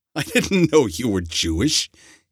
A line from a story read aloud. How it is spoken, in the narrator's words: he laughed